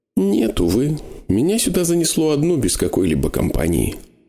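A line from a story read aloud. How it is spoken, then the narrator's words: Sighing. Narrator (Russian): вздохнула она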